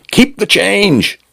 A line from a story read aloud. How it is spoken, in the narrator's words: he shouted